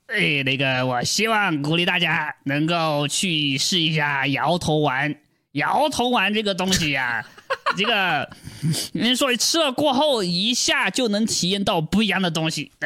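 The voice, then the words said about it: Imitating another person's voice. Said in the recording (Chinese): “我用他 的声音说话。”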